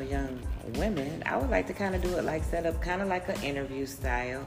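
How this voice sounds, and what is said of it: Congested, clogged-up voice. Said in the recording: “Excuse my voice. ... I have uh, been struggling with sinuses, so I kind of sound a little clogged up.”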